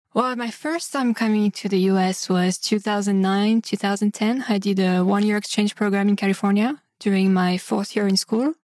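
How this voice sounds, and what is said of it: French accent in English. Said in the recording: “you're not from this country just based on the accent ... So you're from France”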